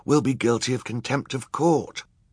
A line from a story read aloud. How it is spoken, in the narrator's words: Klaus whispered